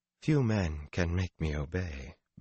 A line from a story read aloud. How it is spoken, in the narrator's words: Verlaine laughed softly